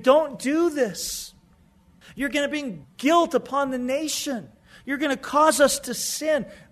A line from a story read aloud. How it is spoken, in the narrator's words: Joab is pleading with David